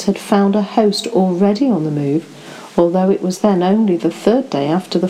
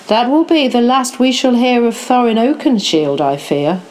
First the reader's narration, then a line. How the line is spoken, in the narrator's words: said the King